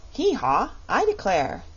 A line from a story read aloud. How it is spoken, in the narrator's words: exclaimed the king